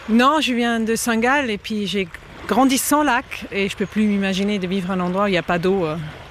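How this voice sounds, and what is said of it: Slight foreign accent in French. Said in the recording (French): “j'entends un petit accent”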